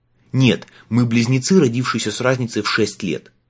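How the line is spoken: Snapped. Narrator (Russian): огрызнулся Майлз

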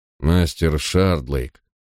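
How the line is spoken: Weary sigh. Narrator (Russian): устало вздохнул он

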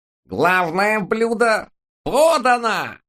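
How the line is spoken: Nasal sing-song voice. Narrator (Russian): Гнусавым голоском пропел тот самый тощий вампирообразный тип

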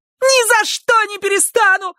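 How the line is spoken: Startling piercing shriek. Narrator (Russian): завизжала Гарриет, да так, что все вздрогнули

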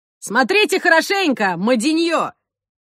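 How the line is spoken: Shouted. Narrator (Russian): крикнул беглец

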